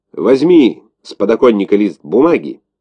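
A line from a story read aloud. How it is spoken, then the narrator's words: Curt command. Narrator (Russian): Отрывисто бросил живуну генерал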